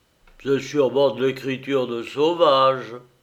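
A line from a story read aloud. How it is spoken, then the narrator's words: Grumbling without malice. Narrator (French): grommela Ellis, sans y mettre malice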